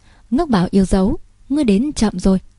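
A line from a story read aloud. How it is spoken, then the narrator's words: Gentle, smiling. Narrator (Vietnamese): Thượng quan Ngư Nguyệt mỉm cười, dịu dàng nói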